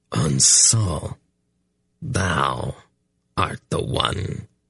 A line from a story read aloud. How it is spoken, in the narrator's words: it snarled in a voice which seemed scarcely human